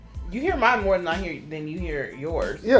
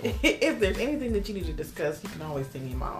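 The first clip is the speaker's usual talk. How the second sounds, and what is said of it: Fake polite office-professional voice. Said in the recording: “the Linda voice ... Linda from HR voice ... It's a little fake ass voice you be using.”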